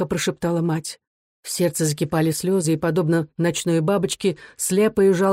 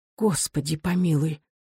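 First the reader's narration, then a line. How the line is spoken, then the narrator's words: Frightened whisper. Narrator (Russian): прошептала мать, вздрогнув от страха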